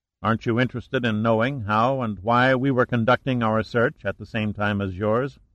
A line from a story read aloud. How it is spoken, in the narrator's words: asked Pitt